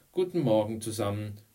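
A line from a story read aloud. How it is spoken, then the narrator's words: Calling out. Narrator (German): rief Mrs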